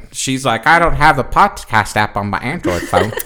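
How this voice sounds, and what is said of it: Imitates another person's voice. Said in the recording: “I thought you were me for a second. ... spot on impersonation. ... That was incredible. ... nailed it.”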